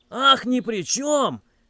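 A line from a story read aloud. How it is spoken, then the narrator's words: Man shouting again. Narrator (Russian): опять закричал мужчина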